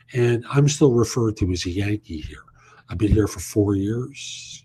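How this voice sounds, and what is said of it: New York accent. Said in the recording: “that's a New York accent I've got”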